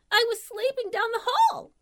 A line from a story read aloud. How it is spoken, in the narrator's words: managed to gasp out